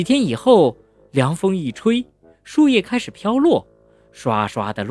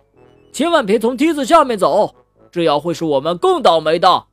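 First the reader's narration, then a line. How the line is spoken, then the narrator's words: Chubby boy shouting. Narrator (Chinese): 小胖墩高声喊道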